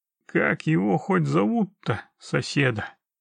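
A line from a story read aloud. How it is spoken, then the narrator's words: Resigned sigh. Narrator (Russian): вздохнул Геральт, готовый к любым невзгодам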